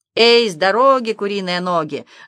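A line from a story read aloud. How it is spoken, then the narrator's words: Cabin boy's ringing shout. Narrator (Russian): звонким голосом выкрикивал юнга Матрасов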